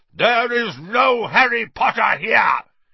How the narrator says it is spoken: roared

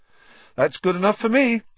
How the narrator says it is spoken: said Ron happily

